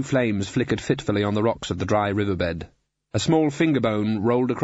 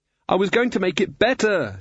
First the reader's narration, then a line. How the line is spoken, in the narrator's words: shouted Susan